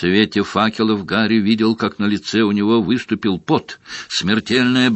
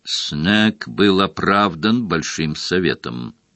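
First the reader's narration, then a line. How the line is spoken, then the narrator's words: Cold. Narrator (Russian): холодно произнес Крауч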